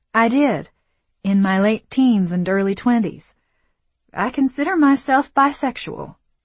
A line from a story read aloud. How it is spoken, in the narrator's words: Lucy says, both matter-of-factly and shakily